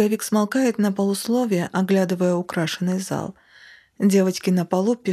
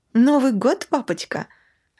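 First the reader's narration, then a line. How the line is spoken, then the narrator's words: Joyful exclamation, girl. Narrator (Russian): Радостно восклицает Даша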